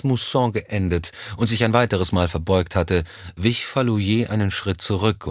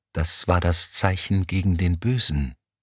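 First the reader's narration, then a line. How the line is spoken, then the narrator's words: Whispering while walking. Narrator (German): flüsterte Kolaou Elm im Gehen zu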